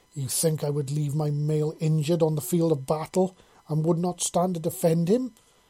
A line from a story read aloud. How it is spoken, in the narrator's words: snarled angrily